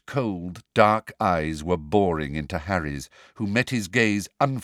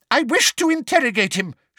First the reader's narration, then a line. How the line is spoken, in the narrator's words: shouted Umbridge angrily